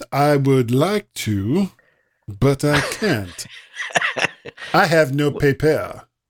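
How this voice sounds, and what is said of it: Put-on French accent. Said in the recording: “Why did you say it like that? ... Everything seems to be in a French accent today.”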